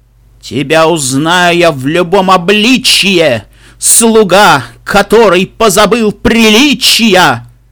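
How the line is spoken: Stern declaration. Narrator (Russian): Главный герой грозно насупившись, заявил

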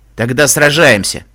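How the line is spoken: Growl. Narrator (Russian): зарычал шеф

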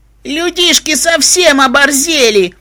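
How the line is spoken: Hysterical shout. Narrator (Russian): истерически выкрикнул единорог

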